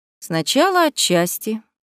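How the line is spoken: Mocking emperor. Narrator (Russian): насмешливо произнес император

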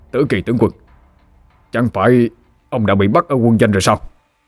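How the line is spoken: Terrified shout. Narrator (Vietnamese): Ngô Hữu Liêm hét lên đầy hải hùng

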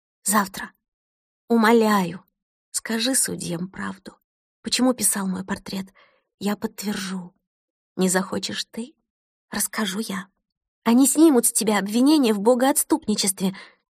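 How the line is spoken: Fervent whisper. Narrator (Russian): горячо зашептала Кристина

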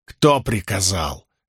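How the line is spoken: Barked. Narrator (Russian): рявкнула Найниф

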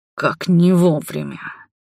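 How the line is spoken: Hoarse wheeze. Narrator (Russian): прохрипел

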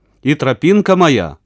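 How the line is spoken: Snorting chuckle. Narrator (Russian): хмыкнул Федька

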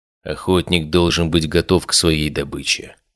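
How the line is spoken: Quiet. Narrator (Russian): тихо сказал он

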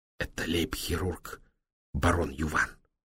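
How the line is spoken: Respectful whisper. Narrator (Russian): почтительно шепнул Демулен

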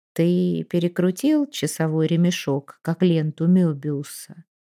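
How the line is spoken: Soft. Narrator (Russian): мягко сказал

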